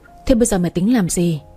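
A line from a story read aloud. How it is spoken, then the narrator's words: Quiet sigh, lowered voice. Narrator (Vietnamese): Kỳ Trang lặng lẽ thở dài, giọng cũng hạ thấp xuống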